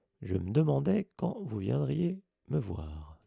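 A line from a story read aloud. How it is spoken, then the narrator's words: Plain. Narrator (French): dit-il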